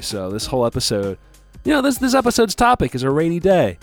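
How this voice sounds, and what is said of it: Sick-sounding voice. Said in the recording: “I've been under the weather the past few days ... that's why my voice sounds the way it does”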